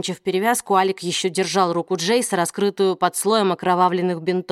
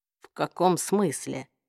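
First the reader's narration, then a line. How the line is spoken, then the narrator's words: Even-toned question. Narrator (Russian): Ровным голосом спросил Джейс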